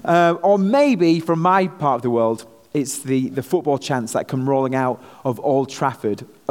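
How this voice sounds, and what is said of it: Speaker's own regional accent. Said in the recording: “I'm sorry that you've got my accent down here today”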